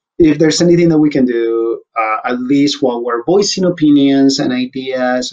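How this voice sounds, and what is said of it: Speaks with a noticeable accent. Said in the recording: “putting up with my accent”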